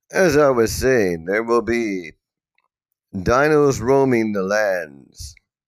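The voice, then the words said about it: Exaggerated sultry, seductive voice. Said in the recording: “prepare to listen to my sexy voice”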